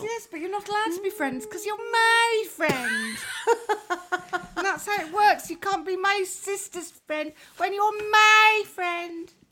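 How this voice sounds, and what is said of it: Funny put-on character voice. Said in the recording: “I might do the rest of the show in that voice. ... It's a very funny voice. It's a very, very funny ... voice.”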